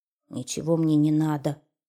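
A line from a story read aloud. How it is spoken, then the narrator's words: Grumble, hedgehog. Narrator (Russian): пробурчал ёжик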